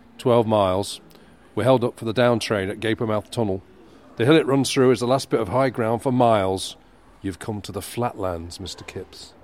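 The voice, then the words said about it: Put-on character voice. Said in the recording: “That was my Mr. Daly impression.”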